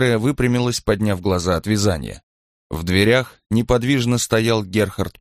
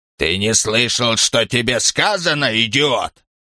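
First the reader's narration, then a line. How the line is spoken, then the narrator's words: Commanding, menacing growl. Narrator (Russian): Старик властно и угрожающе, напоминая старого, гордого, рычащего пса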